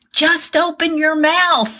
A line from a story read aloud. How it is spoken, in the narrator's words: yelling